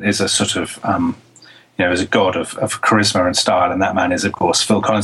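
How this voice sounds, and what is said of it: British accent. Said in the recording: “when, of course, I spoke to deny that I was Phil Collins, my accent gave away the fact that I was Phil Collins”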